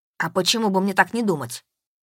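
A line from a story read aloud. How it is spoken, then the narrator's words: Sharp rebuke. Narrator (Russian): Резко одернул его Максим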